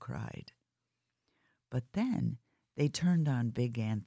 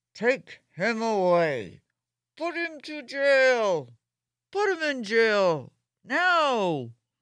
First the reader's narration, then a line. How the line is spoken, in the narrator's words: the men shouted